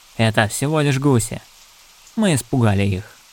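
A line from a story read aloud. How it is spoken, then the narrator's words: Calm. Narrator (Russian): спокойно сказал Форест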